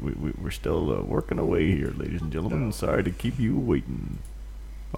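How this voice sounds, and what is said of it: Usual voice. Nothing is said of it.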